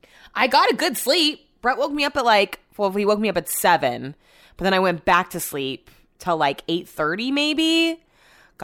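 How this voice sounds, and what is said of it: Monotone, relaxed customer-service voice. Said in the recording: “I sound really monotone right now? This is my relaxing customer voice”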